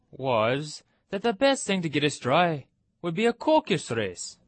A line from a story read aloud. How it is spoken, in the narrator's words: said, in an offended tone